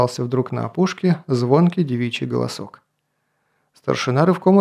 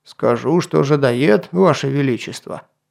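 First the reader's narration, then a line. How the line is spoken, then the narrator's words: Snorting. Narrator (Russian): хмыкнул Атар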